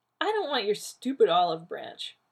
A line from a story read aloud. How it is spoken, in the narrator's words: Rodney said scornfully